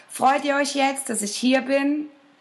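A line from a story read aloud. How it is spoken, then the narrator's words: Calling out. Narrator (German): rief der kleine Tag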